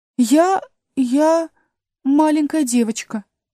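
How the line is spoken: Uncertain. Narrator (Russian): неуверенно сказала Алиса

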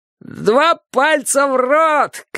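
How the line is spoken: Shout. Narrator (Russian): крикнул он

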